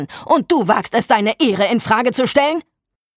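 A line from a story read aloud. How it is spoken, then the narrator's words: Older man roaring. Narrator (German): brüllte der ältere Mann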